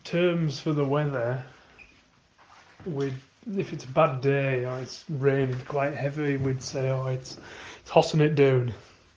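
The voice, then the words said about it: Congested voice, as with a cold. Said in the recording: “I've got a little bit of a cold. ... That's why I sound a bit ridiculous when I'm talking.”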